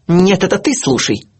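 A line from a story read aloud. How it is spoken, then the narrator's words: Harsh bark. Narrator (Russian): рявкнула она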